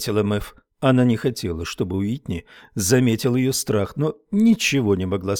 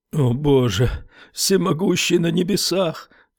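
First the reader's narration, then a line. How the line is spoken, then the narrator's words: Sobbing. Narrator (Russian): всхлипнул Стерджис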